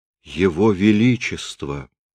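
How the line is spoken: Agitated mutter. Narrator (Russian): взволнованно бормочет Генрих

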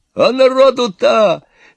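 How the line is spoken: Yelling. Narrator (Russian): заорал Иван

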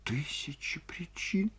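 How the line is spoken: Sobbing. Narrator (Russian): всхлипнула Ольга Ивановна

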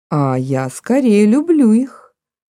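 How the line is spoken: Calm, almost sad. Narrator (Russian): Голос его звучал спокойно и почти печально

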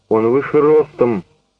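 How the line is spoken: Sharp. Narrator (Russian): резко говорит Питер

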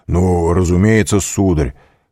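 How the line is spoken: Loud. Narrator (Russian): прибавил он громко

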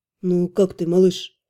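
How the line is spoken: Unexpectedly tender. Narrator (Russian): Неожиданно ласково спросил он

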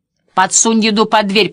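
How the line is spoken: Old woman shouting. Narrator (Russian): прокричала бабуля

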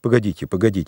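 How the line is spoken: Muttering. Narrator (Russian): бормотал я

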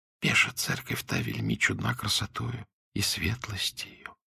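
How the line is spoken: Near whisper. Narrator (Russian): почти прошептала Агния

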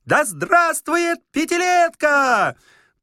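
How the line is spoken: Thin funny child's shout. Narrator (Russian): пионерка гремящего ключа своими слабыми ручонками сразу ухватила быка за рога и тонким смешным голосом закричала

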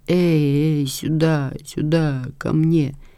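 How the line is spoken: Moaning sleepy mumble. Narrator (Russian): застонал во сне, бормоча

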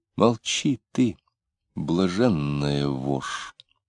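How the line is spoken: Quiet, menacing. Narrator (Russian): тихонько сказал

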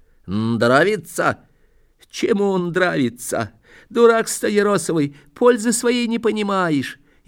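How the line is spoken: Whimpering. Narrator (Russian): И захныкал

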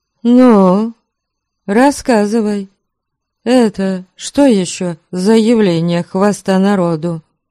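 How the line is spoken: Sighing, then speaking. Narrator (Russian): Сонечка вздохнула и заговорила

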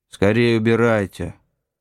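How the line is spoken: Angry shout. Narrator (Russian): Он сердито кричит

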